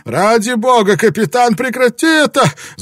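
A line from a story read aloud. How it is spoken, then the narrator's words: Breathless wailing. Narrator (Russian): задыхаясь, вопил Спилберген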